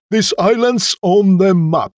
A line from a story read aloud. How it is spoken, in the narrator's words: they cried